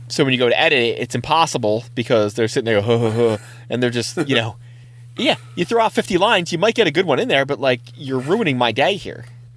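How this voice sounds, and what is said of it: Imitates another person's voice. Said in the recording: “I'm counting that as an impersonation of Seth Rogen ... Does that go on the list as one of the impersonations? ... Yeah, that was a good one. That was better than most of them.”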